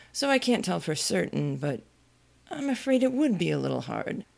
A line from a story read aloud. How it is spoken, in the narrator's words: the knight said gravely